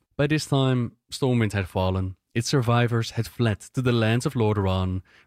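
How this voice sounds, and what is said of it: Thick accent in English narration. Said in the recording (Danish): “Jeg kan virkelig godt høre den accent ... selvom at den er meget tyk”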